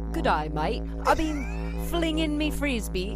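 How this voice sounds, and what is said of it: Poor attempt at Australian accent. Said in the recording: “Can you do an Australian accent? ... That's not it at all.”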